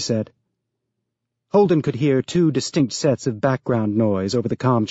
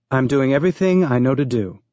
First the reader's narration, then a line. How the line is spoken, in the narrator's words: Becca said, her voice astonishingly calm